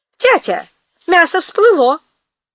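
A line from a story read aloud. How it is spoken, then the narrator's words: Shout. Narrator (Russian): Панка крикнула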